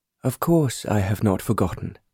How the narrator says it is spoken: Sir John replied

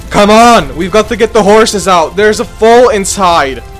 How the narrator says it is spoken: I shouted at the firefighters

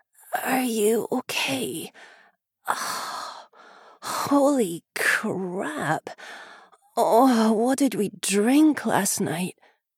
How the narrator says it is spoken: a loud groan, followed by a hoarse

